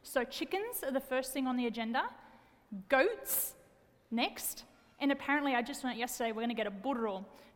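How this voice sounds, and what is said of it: Australian accent. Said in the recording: “born and raised in Wollongong, Australia ... I do have an accent”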